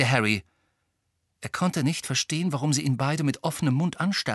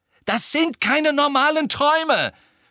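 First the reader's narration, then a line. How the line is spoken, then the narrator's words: Shouted at someone. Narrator (German): schrie Harry sie an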